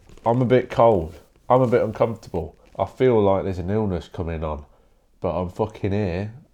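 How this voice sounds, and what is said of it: Nasal, slightly congested voice. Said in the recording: “I sound a bit nasally today.”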